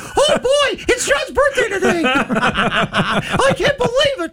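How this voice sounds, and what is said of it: Good Mickey Mouse impression. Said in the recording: “two little Mickey Mouses ... That's a really good impression, actually. That's really funny.”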